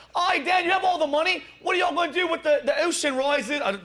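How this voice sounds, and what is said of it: Bad put-on Australian accent. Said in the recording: “that was the worst Australian English accent.”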